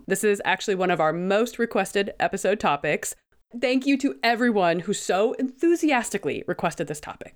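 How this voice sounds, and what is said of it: Voice slightly off, sick. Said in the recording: “my voice sounds a little bit off. I am recovering from the flu.”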